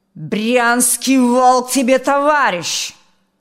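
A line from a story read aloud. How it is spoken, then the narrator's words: Barked. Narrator (Russian): гаркнул тот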